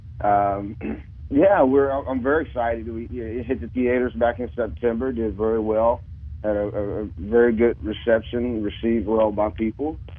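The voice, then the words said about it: Voice sounds hoarse from a cold. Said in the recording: “excuse my voice. I'm suffering from a bit of a cold here.”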